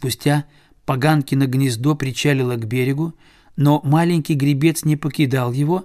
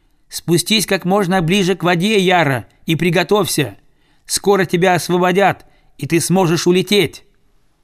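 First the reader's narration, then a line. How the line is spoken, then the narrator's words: Shouting. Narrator (Russian): этот человечек прокричал селезню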